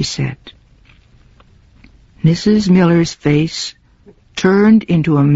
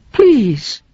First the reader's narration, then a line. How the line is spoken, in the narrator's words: cried Mrs